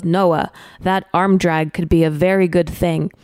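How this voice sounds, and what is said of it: Put-on Brazilian accent. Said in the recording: “in his Brazilian accent”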